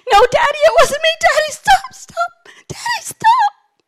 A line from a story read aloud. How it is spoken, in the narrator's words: he's screaming